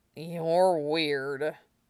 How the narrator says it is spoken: he mumbled

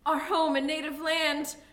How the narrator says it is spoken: he cried

